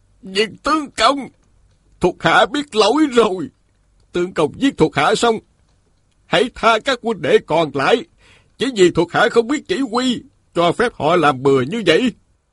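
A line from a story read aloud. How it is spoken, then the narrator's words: Kneeling, pleading cry. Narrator (Vietnamese): Hồng Thắng Hải quỳ dưới đất la lên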